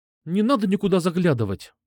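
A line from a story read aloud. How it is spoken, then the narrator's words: Irritated snap. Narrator (Russian): Раздраженно бросила она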